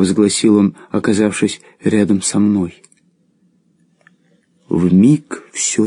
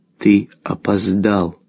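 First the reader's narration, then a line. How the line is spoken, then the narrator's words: Plain, old man. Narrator (Russian): сказал старик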